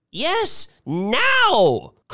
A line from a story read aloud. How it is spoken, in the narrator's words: cried Mrs